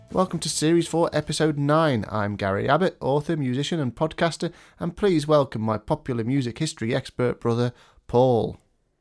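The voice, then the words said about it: Congested, bunged-up voice from a cold. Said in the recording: “You sound a little bunged up. ... I'm a little on the bunged up side, yes. I'm a little coldy ... you sound like a classic advert for... It's like a cold remedy”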